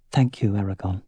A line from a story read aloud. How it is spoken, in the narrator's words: said softly